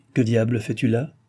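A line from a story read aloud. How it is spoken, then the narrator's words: Plain question. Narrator (French): lui demanda-t-il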